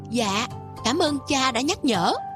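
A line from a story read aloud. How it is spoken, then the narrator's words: Forced smiling reply. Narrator (Vietnamese): miễn cưỡng mỉm cười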